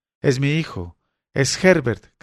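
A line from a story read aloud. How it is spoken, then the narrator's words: Woman shouting while struggling. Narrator (Spanish): gritó la mujer luchando para que la soltara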